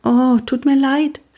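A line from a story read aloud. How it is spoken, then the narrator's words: Thin voice. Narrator (German): sagte Pia mit dünner Stimme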